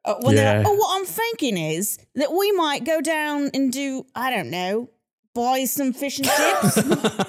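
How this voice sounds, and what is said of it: Put-on Cockney accent. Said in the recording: “the Cockney accent ... the first accent I could really like do ... That's very Oliver Twist. ... It's good.”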